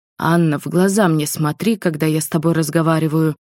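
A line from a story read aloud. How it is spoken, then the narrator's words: Angry grumble. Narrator (Russian): проворчал Максим со злостью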